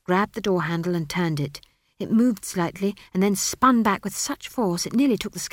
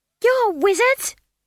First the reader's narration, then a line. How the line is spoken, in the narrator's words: she screamed